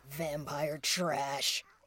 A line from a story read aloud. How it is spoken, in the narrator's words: It snarled